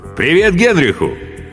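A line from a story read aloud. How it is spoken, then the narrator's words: Cheerful shout. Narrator (Russian): крикнул весело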